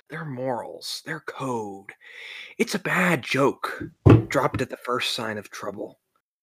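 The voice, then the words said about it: Menacing villain character voice. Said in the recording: “I wanted to do the Joker ... you can do the voice”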